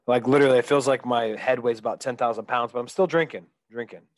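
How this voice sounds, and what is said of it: Congested, stuffy-nosed voice. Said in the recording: “you kind of sound like a Patrick Mahomes right now with your COVID issue ... I have a little bit of a cold ... head cold. I'm all stopped up.”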